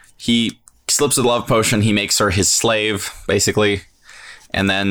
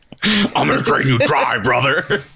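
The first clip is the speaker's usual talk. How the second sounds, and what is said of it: Wrestler voice like Hulk Hogan. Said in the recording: “I don't know why I'm making her talk kind of like a wrestler. ... The Hulkster.”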